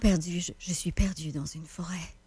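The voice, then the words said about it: Deeper, breathier imitated voice. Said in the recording (French): “Dakota, c'est pas mal la même voix, mais Dakota, je te dirais qu'elle est plus deep, il y a plus d'air dedans.”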